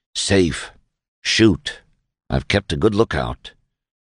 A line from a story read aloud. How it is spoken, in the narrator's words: Webb answered softly